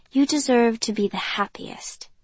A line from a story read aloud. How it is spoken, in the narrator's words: I say gently